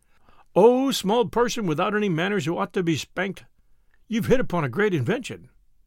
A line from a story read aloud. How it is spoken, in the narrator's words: the head chief of the tribe of Tegumai cried and said and sang